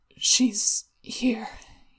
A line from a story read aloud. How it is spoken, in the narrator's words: he mumbled